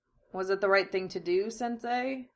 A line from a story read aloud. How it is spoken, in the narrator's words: He asked thin air softly